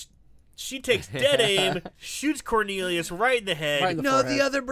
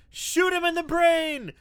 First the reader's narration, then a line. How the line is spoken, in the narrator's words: Dirk is yelling